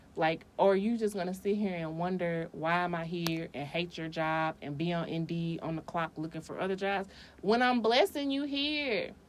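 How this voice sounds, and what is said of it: Yelling, loud voice. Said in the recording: “I'm yelling.”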